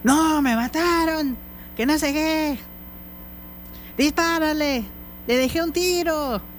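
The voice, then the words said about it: Shouting at full volume. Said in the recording (Spanish): “estás gritando ... estabas gritando como a las 11, 12 de la noche, jugando a todo pulmón”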